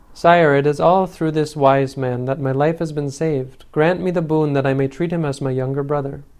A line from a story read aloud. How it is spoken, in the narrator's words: the queen said to the king, rather respectfully and a bit timidly